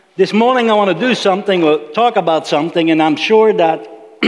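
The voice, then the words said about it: Slight accent. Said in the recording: “you detect a little accent, it's mine.”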